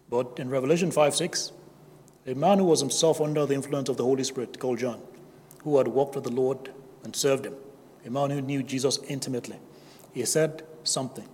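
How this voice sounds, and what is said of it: West African accent. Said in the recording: “I'm just a West African with a funny accent.”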